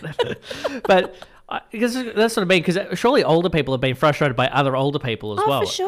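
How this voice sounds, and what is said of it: Usual voice. Nothing is said of it.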